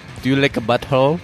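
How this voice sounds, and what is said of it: Imitates another person's silly accent. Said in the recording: “that stupid accent”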